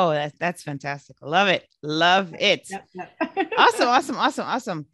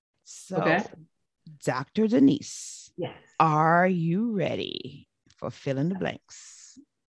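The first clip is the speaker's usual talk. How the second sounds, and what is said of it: Dramatic movie trailer voiceover voice. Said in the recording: “I'm practicing my trailer voice ... listening to those voiceovers”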